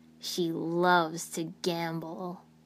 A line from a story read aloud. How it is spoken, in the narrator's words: he chuckled